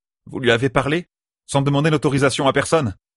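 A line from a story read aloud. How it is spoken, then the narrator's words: Disrespectful exclamation. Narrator (French): Peu encline à respecter la première servante, Dailin s'exclama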